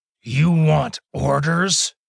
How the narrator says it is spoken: Molin growled in response

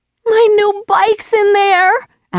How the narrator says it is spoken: Allie wailed

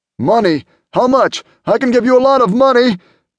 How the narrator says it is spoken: John sputtered, tears dripping down his fat cheeks

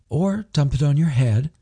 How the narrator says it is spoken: cooed

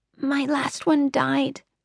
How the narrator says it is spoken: Bonnie said, whispering, her face transforming from a feverish daze to one of grief

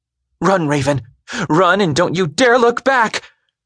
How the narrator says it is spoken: cried as the first rounds erupted

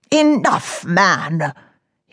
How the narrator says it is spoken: he rasped

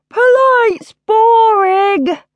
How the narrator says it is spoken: yawned Roodica

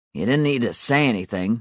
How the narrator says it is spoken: Mark grumbled

